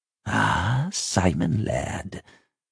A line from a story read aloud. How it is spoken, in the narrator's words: he chuckled quietly